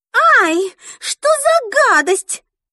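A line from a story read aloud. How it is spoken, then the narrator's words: Cry out. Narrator (Russian): вскрикнула она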